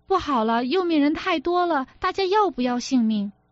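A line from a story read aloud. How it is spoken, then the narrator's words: Shouted along crowd. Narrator (Chinese): 全船传喊着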